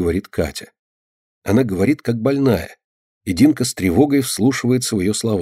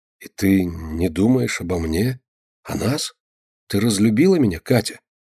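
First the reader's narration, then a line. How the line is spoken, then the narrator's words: Muffled question. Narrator (Russian): глухо спрашивает Костя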